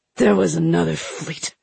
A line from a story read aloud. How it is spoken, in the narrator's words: hissed the prisoner